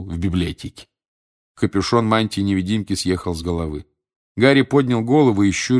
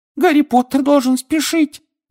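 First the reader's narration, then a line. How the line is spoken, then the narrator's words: Squeaked. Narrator (Russian): пискнул Добби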